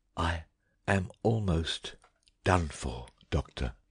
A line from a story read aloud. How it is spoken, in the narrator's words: whispered